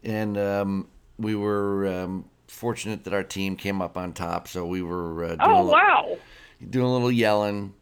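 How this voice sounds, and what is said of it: Raspy, hoarse voice. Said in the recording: “my raspy voice ... happy to have the rasp in my voice this morning”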